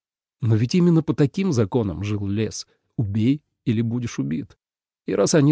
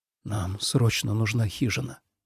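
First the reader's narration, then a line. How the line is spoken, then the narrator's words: Whispered. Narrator (Russian): прошептал он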